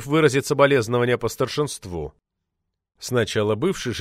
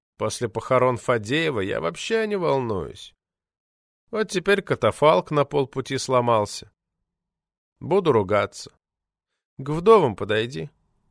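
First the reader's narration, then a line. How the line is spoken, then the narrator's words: Indifferent voice. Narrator (Russian): посоветовал равнодушным голосом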